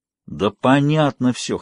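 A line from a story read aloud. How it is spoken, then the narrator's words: Wheezing. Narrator (Russian): хрипел Красовский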